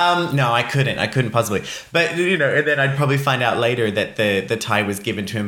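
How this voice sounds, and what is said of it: Usual voice. Nothing is said of it.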